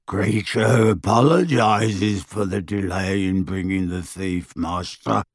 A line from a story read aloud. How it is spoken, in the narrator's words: croaked the elf